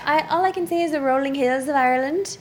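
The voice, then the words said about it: Put-on Irish accent. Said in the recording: “Irish ... accent, okay? ... can you show it off?”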